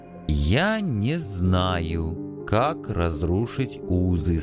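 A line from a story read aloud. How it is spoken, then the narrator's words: Slow. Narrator (Russian): сказал он медленно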